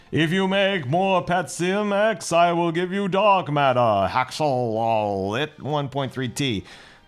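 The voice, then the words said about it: Put-on alien voice. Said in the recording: “what kind of accent am I doing this time? ... Aliens. ... Foolish Earth.”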